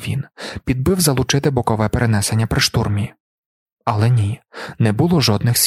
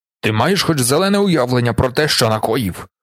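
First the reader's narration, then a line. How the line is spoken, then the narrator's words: Spluttering shout. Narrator (Ukrainian): закричав Газ, бризкаючи слиною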